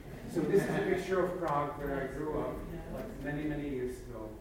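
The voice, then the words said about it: Slight Czech accent. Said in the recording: “can I sense a little accent? ... you still have an accent like this? Said, yes.”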